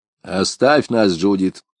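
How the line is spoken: Stern command. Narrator (Russian): строго приказал Хаттер

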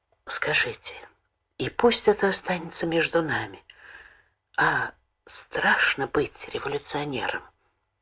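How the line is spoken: Sudden quiet question. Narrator (Russian): она вдруг тихонько спросила

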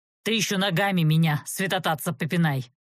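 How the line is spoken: Angry voice. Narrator (Russian): сердито предложил мрак

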